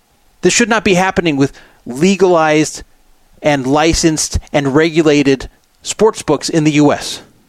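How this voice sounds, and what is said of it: Angry, agitated voice. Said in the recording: “I'm sure you can hear in my voice how pissed off I am about this.”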